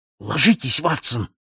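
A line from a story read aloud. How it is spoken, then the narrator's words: Exclaimed. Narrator (Russian): воскликнул Холмс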